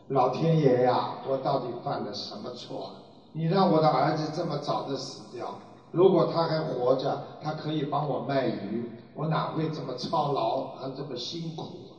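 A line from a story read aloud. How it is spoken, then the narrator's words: Old man lamenting. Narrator (Chinese): 卖鱼的老人，一边呢哀叹的说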